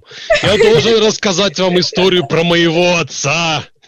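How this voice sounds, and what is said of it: Exaggerated put-on Russian accent. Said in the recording (Russian): “мы должны говорить с русским акцентом”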